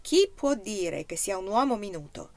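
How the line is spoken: Dramatic exclamation. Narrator (Italian): Anna lo udì esclamare drammaticamente

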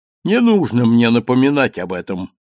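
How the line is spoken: Sharp objection. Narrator (Russian): резко возразил свидетель

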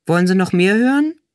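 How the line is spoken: Deliberately bored reading. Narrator (German): Gabi las das nächste Zitat mit betont gelangweilter Stimme vor

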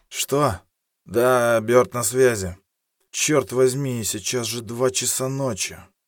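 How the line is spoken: Sleepy indignation. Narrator (Russian): Сонным голосом возмутился

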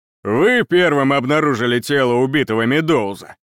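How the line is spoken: Growl. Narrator (Russian): прорычал он

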